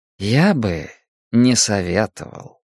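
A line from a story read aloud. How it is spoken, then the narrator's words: Soft remark. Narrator (Russian): мягко заметил Демарко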